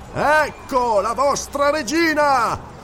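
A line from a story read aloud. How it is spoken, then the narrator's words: Thundering over the crowd. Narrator (Italian): tuonò Valerius sforzandosi di farsi sentire al di sopra del clamore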